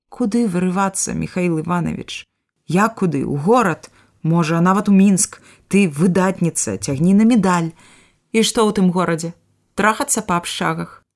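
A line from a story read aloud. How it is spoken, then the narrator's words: Calm childlike voice. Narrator (Belarusian): Спакойна, сваім зусім яшчэ дзіцячым голасам пытае яна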